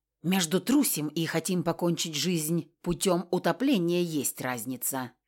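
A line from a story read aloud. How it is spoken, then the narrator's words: Restrained snapping retort. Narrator (Russian): огрызнулась однако не слишком наглея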